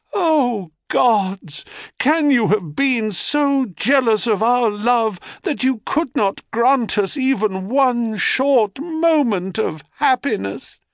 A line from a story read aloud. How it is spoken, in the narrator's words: cries